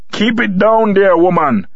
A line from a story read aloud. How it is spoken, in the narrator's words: barked